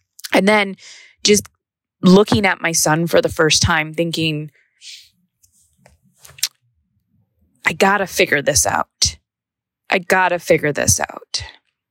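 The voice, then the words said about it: Emotional, choked-up voice. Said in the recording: “I don't even know why I'm getting emotional.”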